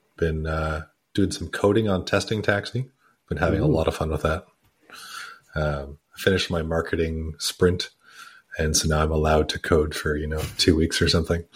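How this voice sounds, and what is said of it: Sick, congested voice. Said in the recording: “I'm a little under the weather, as you can probably hear in my voice. I've been coughing lots lately and just trying to get through a cold.”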